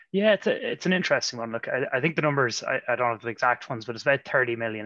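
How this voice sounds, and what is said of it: Irish accent. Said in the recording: “I still, I think, have held on to my Irish accent, even though I've been out of the country since 2012. ... when I open my mouth, go, "Oh, you're Irish,"”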